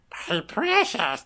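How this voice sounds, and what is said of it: Gollum character voice. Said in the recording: “do a Gollum impression ... All of a sudden, Andy Serkis got here.”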